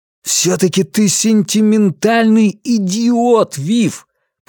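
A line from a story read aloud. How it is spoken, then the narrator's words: Near shout, dropping to whisper. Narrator (Russian): Почти выкрикнул он, тут же опустив голос почти до шепота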